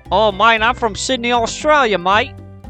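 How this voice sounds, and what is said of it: Goofy put-on Australian accent. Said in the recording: “That's a goofy accent ... My Australian friend”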